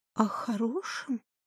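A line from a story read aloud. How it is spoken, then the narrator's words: Quiet question. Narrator (Russian): тихо спросила Марина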